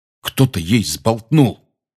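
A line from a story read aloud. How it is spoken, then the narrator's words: Angry. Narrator (Russian): сердито сказал Рон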